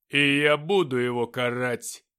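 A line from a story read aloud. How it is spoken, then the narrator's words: Barking roar. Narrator (Russian): рявкнул Люцифер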